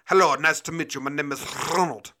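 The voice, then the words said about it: Put-on French-ish accent, rolled R. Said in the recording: “I was a little French with the tongue roll, I think.”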